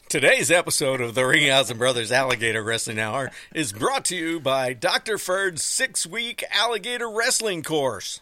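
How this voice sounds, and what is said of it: Commercial announcer voice. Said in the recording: “you changed your voice ... it's my commercial voice ... it's my announcer voice”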